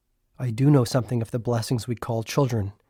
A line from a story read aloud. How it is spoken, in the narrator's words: he said softly